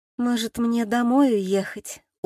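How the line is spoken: Dejected question. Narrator (Russian): уныло спросила

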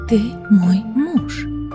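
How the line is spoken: Whispered objection. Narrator (Russian): также шепотом возразила Элида

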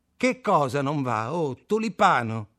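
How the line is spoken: Shouted. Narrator (Italian): gridò Kaczynski

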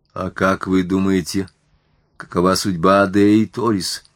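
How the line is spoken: Feigned indifference. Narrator (Russian): спросил я, насколько мог, равнодушным тоном

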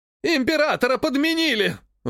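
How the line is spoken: Sudden yell. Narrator (Russian): внезапно заорал еще кто-то из князей

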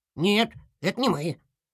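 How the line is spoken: Offended squeak. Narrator (Russian): обиженно пропищал Торпеда

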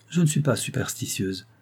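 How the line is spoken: Calm tone. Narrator (French): dit Rose d'un ton calme

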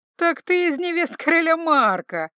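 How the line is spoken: Chuckling. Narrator (Russian): хохотнул Роберто

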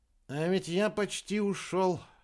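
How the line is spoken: Sighing. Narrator (Russian): Вздохнул Рикки

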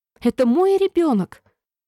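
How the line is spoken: Exclaimed. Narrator (Russian): воскликнула

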